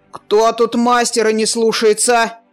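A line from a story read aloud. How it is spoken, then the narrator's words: Barking. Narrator (Russian): рявкнул он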